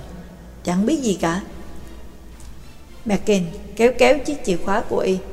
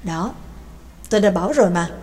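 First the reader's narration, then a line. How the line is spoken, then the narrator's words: Smiling mutter. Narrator (Vietnamese): Mạc Kinh mỉm cười lẩm bẩm nói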